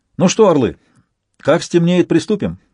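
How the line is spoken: Cheerful. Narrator (Russian): бодро проговорил Донцов

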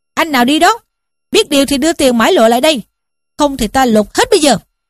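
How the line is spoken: Big man shouting. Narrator (Vietnamese): một đại hán quát lên rằng

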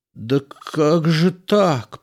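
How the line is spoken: Moaning in pain, younger one. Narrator (Russian): простонал младший, хватаясь за воспаленную голову

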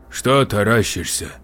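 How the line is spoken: Grumble. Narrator (Russian): буркнула медсестра

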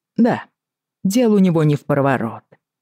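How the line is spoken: Calm reply. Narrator (Russian): спокойно откликнулся Хейз

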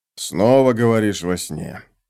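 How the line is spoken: Sleepy grumbling mumble. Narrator (Russian): пробурчал он, ворочаясь под одеялом

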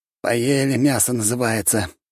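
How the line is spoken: Grumbling crowd. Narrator (Russian): ворчали люди

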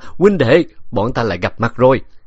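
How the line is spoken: Loud laughing. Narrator (Vietnamese): Độc Lợi cười lớn

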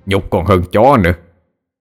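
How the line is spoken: Loud laughing. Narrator (Vietnamese): Gã trọc cười lớn

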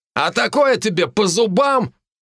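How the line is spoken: Shout. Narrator (Russian): кажется, это крикнул Тарт

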